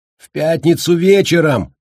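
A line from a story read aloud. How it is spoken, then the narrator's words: Loud shout. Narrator (Russian): громко крикнул Колли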